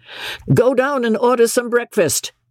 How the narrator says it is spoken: McMurdo said to his man in a loud, cheerful voice

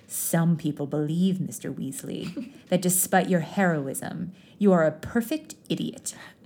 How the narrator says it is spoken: the potions master said with a sneer

